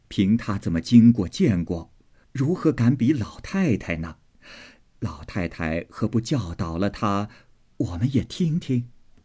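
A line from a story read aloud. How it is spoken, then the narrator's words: Laughing together. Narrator (Chinese): 薛姨妈等都笑说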